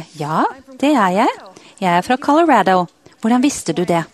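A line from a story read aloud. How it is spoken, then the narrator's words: Surprised answer. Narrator (Norwegian): Hun ble overrasket over spørsmålet og svarte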